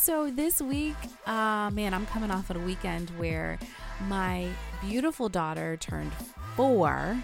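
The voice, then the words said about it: Stuffy, congested voice. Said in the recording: “If you can't hear in my voice, I'm trying to pep it up, but I'm battling some kind of allergy thing. So this episode is maybe not as soothing as my voice usually is. I'm a little stuffy.”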